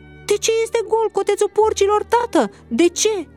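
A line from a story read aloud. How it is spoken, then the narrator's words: Alarmed scream. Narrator (Romanian): Alarmat, el țipând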